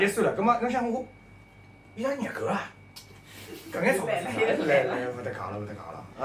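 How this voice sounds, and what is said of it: Usual voice. Nothing is said of it.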